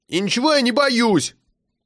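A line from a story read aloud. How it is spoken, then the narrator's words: Shout. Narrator (Russian): крикнул Сережа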